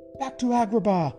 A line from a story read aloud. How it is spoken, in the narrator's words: he shouted to the carpet